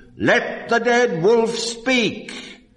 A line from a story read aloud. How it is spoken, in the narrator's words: the seniors of the pack thundered